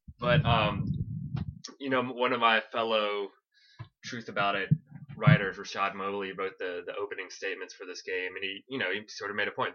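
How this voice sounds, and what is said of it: Slightly congested voice from a cold. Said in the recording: “I'm sounding like I have a little bit of a cold ... I'm coming down with a cold”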